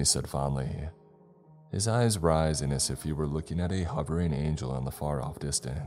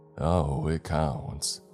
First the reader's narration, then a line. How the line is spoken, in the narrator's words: Timmy drawled in a slow, plodding way